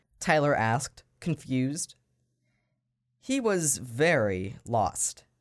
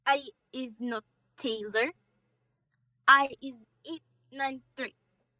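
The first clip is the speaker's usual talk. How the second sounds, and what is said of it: Strange, robotic-sounding alien accent. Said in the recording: “in a very strange accent. It almost sounded robotic.”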